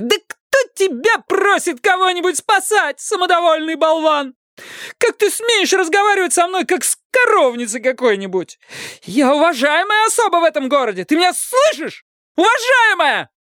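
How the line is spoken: Shouting in his face. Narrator (Russian): Она кричала ему прямо в лицо

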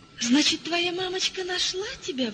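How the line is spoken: Exclaiming. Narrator (Russian): воскликнула она

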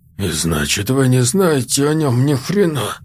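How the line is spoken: Through gritted teeth. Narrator (Russian): садись сквозь зубы доктор Бар

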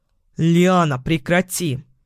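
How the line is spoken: Barked. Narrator (Russian): Рявкнул он

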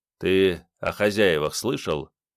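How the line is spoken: Quiet and calm. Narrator (Russian): Голос звучал тихо и удивительно спокойно

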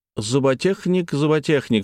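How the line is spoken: Plain. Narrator (Russian): сказал Чеглинцев

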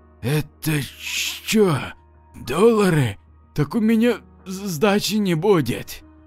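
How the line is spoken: Gulped, then whispered. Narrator (Russian): мужик громко сглотнул и прошептал

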